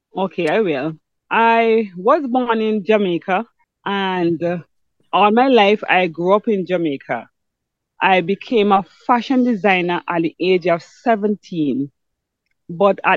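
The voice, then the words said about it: Noticeable non-local accent. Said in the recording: “persons hearing you will pick up an accent”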